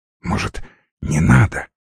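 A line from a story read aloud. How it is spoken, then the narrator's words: Whispered question. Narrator (Russian): шепотом спросил Гоша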